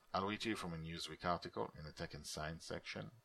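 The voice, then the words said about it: Non-native English accent. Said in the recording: “a word I hope I can pull off with my accent.”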